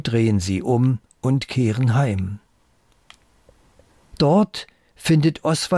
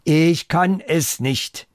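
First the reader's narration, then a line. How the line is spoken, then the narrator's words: Loud. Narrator (German): Und laut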